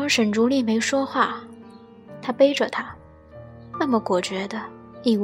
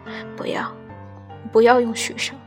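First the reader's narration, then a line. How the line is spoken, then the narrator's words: Hoarse. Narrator (Chinese): 嘶哑出声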